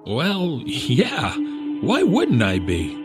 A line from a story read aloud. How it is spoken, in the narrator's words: He laughed a bit